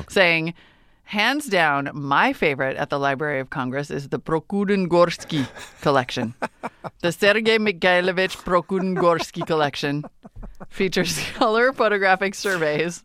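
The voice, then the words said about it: Put-on Russian accent. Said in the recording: “test my Russian accent”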